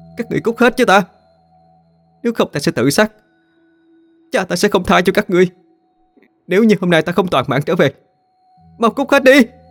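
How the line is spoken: Hateful scream. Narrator (Vietnamese): Cô ... hét lên đầy căm hận

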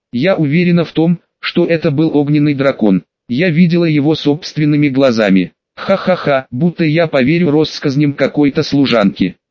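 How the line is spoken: Mocking laughter. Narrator (Russian): засмеялся над ее словами Норма

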